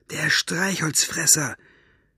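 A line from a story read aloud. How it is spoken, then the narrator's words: Inner whisper. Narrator (German): flüsterte etwas in ihr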